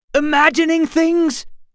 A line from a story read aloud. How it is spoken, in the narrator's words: Gar shouted